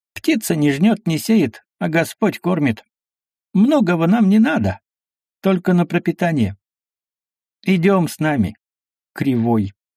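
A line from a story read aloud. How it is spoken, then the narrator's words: Cheerful. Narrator (Russian): Авдоким сказал весело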